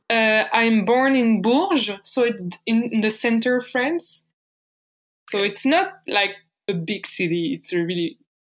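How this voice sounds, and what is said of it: French accent. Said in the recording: “I'm French. You can hear my accent.”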